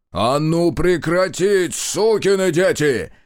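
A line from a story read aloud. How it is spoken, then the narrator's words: Commanding yell. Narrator (Russian): Завопил Марков неожиданно поставленным командирским голосом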